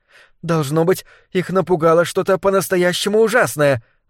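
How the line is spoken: Exclamation. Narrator (Russian): воскликнула Персики

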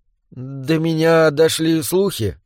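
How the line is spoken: Hesitant. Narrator (Russian): неуверенно начал он

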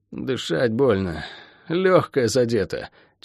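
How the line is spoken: Strained, through teeth. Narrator (Russian): через силу процедил Шен

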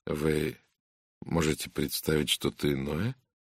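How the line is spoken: Quiet reply. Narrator (Russian): тихо ответила Надин Бойнтон

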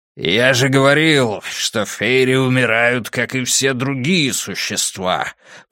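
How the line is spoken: Growl. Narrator (Russian): прорычал Бриндур

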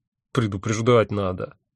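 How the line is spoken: Good-natured grumble. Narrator (Russian): добродушно проворчал я

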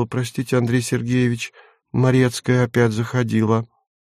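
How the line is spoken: Timid, embarrassed speech. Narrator (Russian): Люся покраснела и робко проговорила

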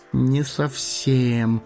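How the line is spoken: Mumbled. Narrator (Russian): промямлил хоббит

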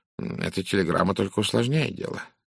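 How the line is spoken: Mumble. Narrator (Russian): пробормотал он

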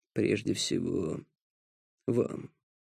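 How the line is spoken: Quiet remark. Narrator (Russian): тихо обронил Зулкифл

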